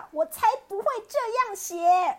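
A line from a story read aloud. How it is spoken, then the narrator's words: Lion roaring. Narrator (Chinese): 狮子大叫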